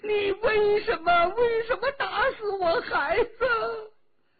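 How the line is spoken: Frenzied crying scream. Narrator (Chinese): 如同疯虎一般，哭叫着

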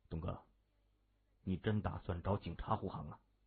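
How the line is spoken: Low question. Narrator (Chinese): 刘波这才低声问

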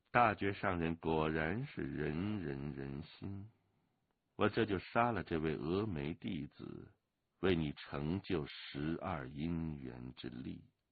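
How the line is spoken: Flat, detached voice. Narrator (Chinese): 那个淡淡的声音又说道

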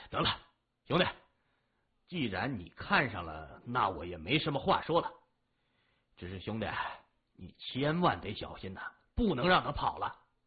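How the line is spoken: Resolute, gritted teeth. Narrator (Chinese): 马五一咬牙说

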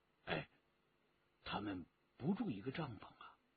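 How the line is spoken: Quiet question. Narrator (Chinese): 陈正德低声的问

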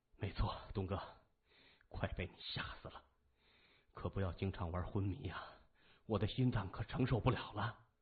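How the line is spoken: Sighing. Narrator (Chinese): 三眼叹了一口气，他说

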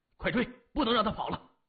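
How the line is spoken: Hurried. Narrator (Chinese): 急忙对三眼说

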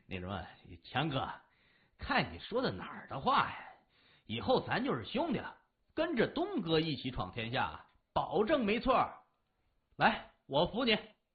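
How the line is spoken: Awkward laugh. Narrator (Chinese): 李爽尴尬的笑了笑

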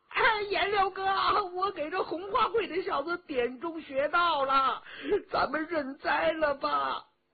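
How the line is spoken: Calling out. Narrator (Chinese): 佟兆和叫着

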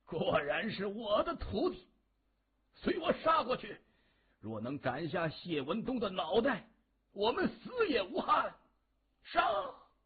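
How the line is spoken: Hoarse rallying roar. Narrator (Chinese): 黄景芳和三名门徒声嘶力竭的大吼着，为同伴鼓劲，也为自己壮胆

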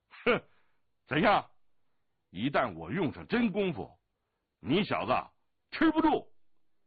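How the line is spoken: Loud laughter. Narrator (Chinese): 降龙大声的笑道

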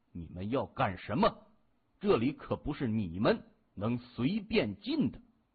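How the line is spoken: Cold, grim. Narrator (Chinese): 其中一位带头的头目满面阴沉的冷声说

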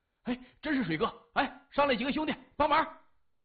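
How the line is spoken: Hurried. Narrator (Chinese): 急忙说

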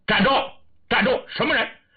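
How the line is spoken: Loud sudden shout. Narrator (Chinese): 郑敬之立刻高声喊喝

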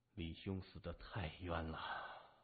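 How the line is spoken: Murmured. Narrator (Chinese): 喃喃地说

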